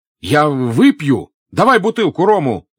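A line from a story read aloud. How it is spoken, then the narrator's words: Drunken decisive shout. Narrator (Russian): закричал Пьер, решительным и пьяным жестом ударяя по стулу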